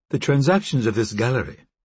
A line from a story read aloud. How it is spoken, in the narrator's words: she said coolly